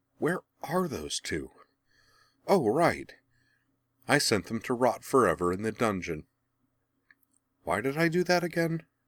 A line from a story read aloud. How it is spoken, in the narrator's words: Azula sighed